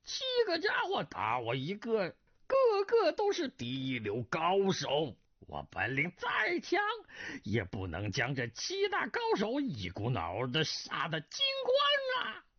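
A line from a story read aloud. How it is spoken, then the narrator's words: Voice alternating shrill and rough. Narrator (Chinese): 那声音忽尖忽粗的人道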